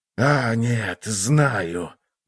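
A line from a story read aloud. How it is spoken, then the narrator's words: Muttered. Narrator (Russian): пробормотал он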